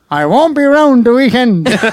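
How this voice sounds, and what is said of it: Impression of Paddy Fong. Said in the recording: “Can you do an impression of Paddy Fong? ... That was a good impression. ... it's decent though”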